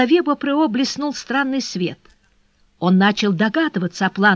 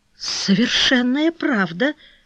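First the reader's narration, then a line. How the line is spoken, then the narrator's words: Puzzled mutter. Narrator (Russian): пробормотал в недоумении Бопро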